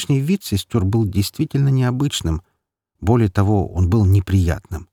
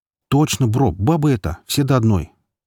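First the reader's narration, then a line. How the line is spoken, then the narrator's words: Plain. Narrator (Russian): ответил Быстроногий Джим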